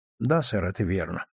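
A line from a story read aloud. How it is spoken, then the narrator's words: Sad. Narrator (Russian): грустно ответил Клайд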